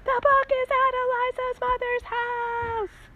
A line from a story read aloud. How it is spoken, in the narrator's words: yell